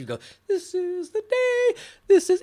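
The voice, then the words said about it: Singing in a very high voice. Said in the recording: “This lady would sing in this high, high voice.”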